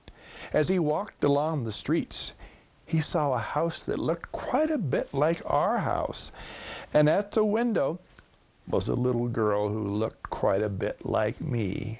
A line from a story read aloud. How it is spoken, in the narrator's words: she said with a sigh